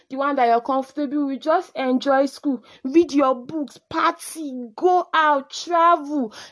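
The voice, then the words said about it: Shouting. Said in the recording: “I don't know why I'm shouting”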